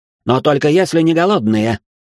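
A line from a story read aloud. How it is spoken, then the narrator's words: Barked. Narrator (Russian): рявкнул на сомлевшего юношу Гринривер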